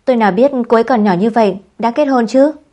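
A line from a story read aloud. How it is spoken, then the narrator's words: Angry woman. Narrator (Vietnamese): cô gái cũng rất tức giận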